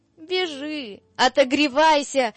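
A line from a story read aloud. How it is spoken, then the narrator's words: Shouted. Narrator (Russian): крикнул Захарыч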